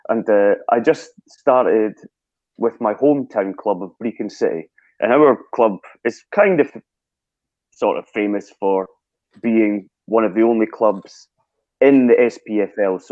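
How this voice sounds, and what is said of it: Scottish accent. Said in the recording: “I'm guessing you can guess from my accent, I'm Scottish.”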